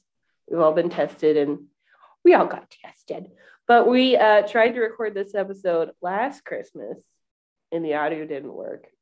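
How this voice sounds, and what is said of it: Congested, sick-sounding voice. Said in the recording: “I have a cold. ... I sound disgusting”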